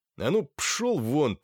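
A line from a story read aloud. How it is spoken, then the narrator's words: Through gritted teeth. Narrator (Russian): процедил Илья Андреевич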